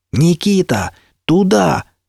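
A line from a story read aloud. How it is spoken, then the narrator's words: All-out yell while running. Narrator (Russian): Что было сил, заорал я на бегу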